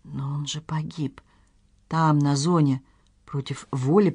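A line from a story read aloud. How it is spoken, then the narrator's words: Mumbled. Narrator (Russian): пробормотала Надежда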